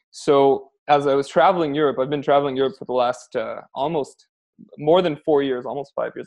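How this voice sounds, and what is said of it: Canadian accent. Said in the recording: “I'm Canadian, as you can probably tell from my accent.”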